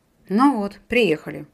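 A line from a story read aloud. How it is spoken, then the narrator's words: Sighing to herself. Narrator (Russian): вздохнула про себя Кира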